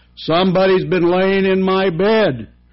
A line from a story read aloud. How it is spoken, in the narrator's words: said the great huge bear in the great rough gruff voice